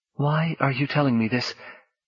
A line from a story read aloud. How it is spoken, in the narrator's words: She said tightly